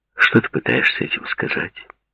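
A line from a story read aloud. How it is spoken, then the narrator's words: Plain question. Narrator (Russian): спросил Пол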